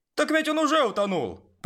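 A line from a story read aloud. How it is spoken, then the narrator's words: Shout. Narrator (Russian): прокричал кто-то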